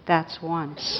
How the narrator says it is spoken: quietly said

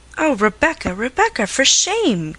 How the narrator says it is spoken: cried Miss Sedley

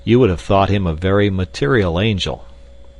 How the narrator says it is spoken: laughed Clayton

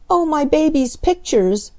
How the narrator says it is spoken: she cried

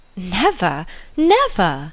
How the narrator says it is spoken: she cried with the most open eagerness

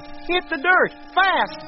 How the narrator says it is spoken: shouting as he ran

